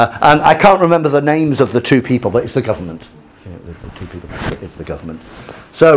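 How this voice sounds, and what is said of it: Usual voice. Nothing is said of it.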